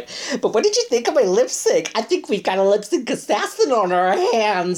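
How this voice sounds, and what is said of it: Imitates another person's voice. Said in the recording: “That's such a good impression.”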